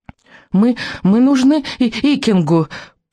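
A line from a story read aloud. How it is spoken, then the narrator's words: Unrestrained squeak. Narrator (Russian): пропищал Беззубик, забыв о сдержанности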